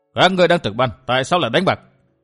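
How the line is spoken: Cold question. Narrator (Vietnamese): Chàng cất tiếng lạnh lùng hỏi

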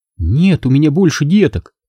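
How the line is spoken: Trembling woman's voice. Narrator (Russian): дрогнувшим голосом пояснила женщина

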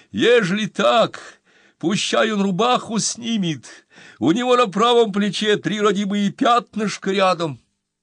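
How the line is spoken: Wailing. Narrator (Russian): Она снова завопила

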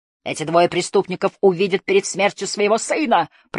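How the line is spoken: Roaring. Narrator (Russian): проревел

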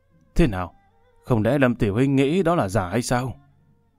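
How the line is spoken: Smiling. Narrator (Vietnamese): mỉm cười

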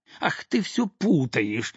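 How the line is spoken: Angry shout. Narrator (Russian): сердито крикнула на нее мать

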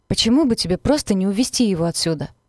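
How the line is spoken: Panting growl. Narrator (Russian): прорычал тяжело дыша

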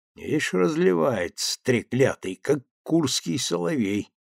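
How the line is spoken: Grumbling. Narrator (Russian): ворчал Вяземский

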